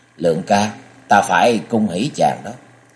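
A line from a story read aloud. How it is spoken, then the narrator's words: Woman smiling. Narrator (Vietnamese): Nàng mỉm cười nói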